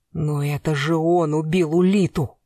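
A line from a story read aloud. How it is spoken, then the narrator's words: Hissing. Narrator (Russian): прошипел Блистанов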